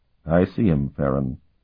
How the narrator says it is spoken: Sparhawk replied very quietly

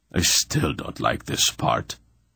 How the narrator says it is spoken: Anheg growled morosely

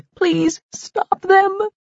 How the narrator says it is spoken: begged

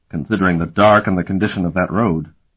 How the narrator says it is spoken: Euloth grunted

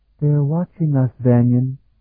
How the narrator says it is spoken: Sophronia said quietly

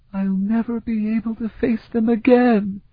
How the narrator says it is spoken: she wailed

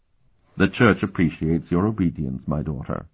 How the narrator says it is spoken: Dolmant said blandly

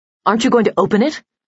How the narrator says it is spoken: she asked sharply

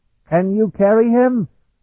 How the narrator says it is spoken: he shouted to Betuana

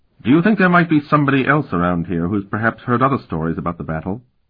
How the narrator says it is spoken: Xavier asked in a neutral tone

